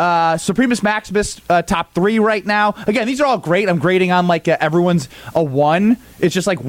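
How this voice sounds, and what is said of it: Usual voice. Nothing is said of it.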